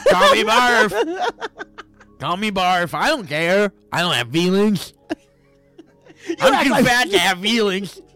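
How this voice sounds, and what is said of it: Funny character voice. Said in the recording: “I'm fat with a funny voice.”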